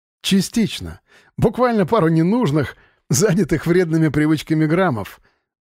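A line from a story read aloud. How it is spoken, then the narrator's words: Laughing. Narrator (Russian): засмеялся Павел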